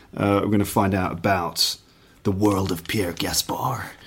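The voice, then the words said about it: Put-on American accent. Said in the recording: “I don't know why I did that in an American accent.”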